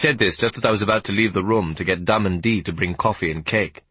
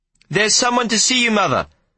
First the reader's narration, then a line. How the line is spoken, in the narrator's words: I shouted over the sound of the whirring machine